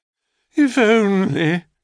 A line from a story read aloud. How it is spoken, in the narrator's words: Zona sighed